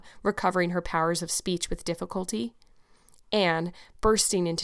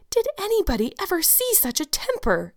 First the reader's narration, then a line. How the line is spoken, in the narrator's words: exclaimed the horrified Mrs